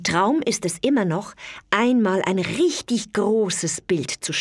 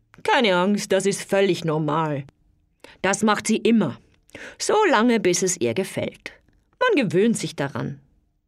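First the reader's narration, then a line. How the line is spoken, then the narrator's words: Laughing. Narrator (German): lacht dann und sagt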